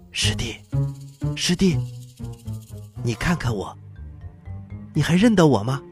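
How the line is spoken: Very quiet. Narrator (Chinese): 说话的声音可小了

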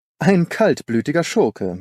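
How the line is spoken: Laughing. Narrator (German): sagte Holmes lachend

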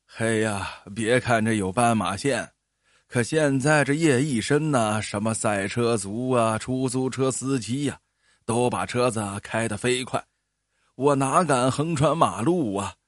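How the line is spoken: Old man, laughing. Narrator (Chinese): 老大爷笑着说

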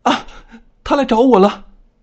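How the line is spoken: Terrified screaming. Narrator (Chinese): 刘恋静惊恐的大叫

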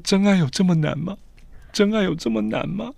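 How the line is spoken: Crying, repeating. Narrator (Chinese): 他就开始哭，不断的说

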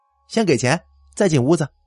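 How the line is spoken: Cold. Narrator (Chinese): 冷冷的说

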